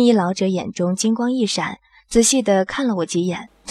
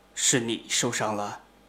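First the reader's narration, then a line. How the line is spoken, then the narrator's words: Old man's deep, grave voice. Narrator (Chinese): 一个青布长衫的白须老者，沉声道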